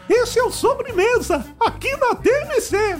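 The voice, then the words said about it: Mickey Mouse cartoon voice impression. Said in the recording (Portuguese): “Eu sei imitar o Mickey, podia ser o Mickey. ... Boa imitação. Foi muito boa, olha, fiquei até impressionado.”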